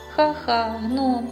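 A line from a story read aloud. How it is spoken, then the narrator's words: Laughing. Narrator (Ukrainian): засміявся Свейн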